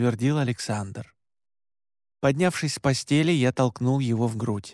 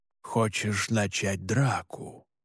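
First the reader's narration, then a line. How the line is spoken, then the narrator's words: Threatening whisper. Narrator (Russian): В шепоте Александра я услышал угрозу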